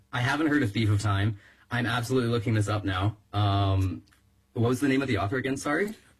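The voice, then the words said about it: Voice going hoarse. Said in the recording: “I'm losing my voice a little bit.”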